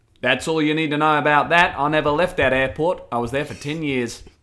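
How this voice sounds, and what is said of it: Put-on Australian accent. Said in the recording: “You do quite a good Australian accent ... I don't know if it's Australian or if it like dips into Kiwi ... No, I don't think you're that good.”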